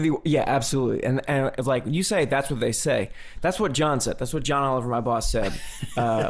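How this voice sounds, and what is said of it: Usual voice. Nothing is said of it.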